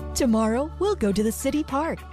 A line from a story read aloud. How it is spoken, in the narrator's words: she chirped happily